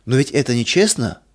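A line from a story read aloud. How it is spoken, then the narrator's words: Child exclaiming. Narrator (Russian): воскликнул малыш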